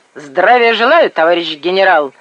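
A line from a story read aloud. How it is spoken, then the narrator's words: Brisk, cheerful. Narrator (Russian): бодро заявил Коляша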